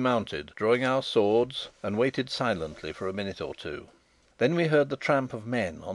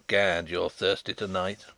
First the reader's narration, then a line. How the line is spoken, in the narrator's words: chuckled Sapt